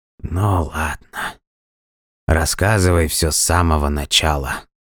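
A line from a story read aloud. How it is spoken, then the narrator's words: Groaning. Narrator (Russian): простонал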